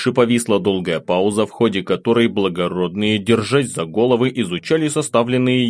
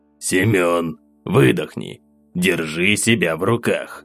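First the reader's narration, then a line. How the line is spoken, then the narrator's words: Hissed into ear. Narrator (Russian): прошипел на ухо барон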